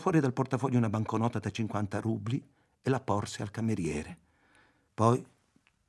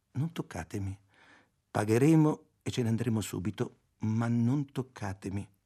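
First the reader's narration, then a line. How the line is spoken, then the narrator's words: Calm, gentle voice. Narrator (Italian): con voce tranquilla e dolce disse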